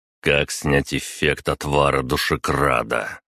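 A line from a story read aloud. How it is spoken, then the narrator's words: Cold question. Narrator (Russian): холодно спросил я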